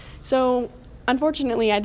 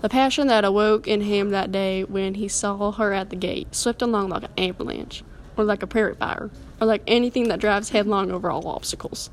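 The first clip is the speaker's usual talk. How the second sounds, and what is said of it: Reading aloud in a put-on accent. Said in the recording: “I did have to read that in an accent”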